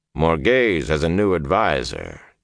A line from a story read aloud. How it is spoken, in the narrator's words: Tom said in a dry voice